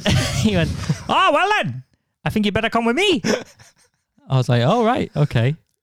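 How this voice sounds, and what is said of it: Put-on Welsh valleys accent. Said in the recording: “What accent is this? ... I was trying to do like a sort of, like a Fireman Sam, Pontypridd. That's how he sounded.”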